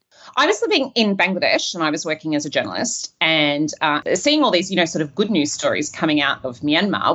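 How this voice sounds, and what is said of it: Australian accent. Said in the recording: “you got the Australian accent.”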